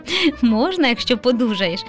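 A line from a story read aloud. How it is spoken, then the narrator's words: Father laughing. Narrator (Ukrainian): засміявся тато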